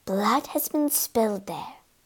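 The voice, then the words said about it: Hushed voice. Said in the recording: “in a hushed voice”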